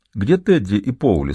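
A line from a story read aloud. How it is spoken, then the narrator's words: Plain. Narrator (Russian): спросил он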